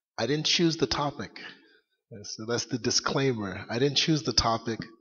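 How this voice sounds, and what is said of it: Low, sore, tired voice. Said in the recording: “my voice is a little low. I've been speaking all day ... my voice is a little sore ... forgive me if I'm not as loud as I should be”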